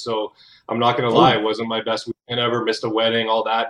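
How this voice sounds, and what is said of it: Slightly hoarse, froggy voice. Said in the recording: “I'm a little hoarse because I'm coming off of like a week of bronchitis ... I still got a little bit of frog in my throat, so you'll hear it today”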